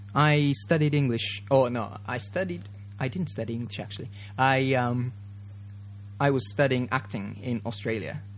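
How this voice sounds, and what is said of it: Mixed Australian, British, Japanese accent. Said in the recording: “I've got a funny accent ... a bit of influence from Australian accent. And also my acting professor was from Britain ... a mixture, and also being a Japanese as well, just puts a bit of accent on”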